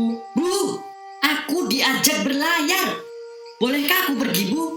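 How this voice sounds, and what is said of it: Usual voice. Nothing is said of it.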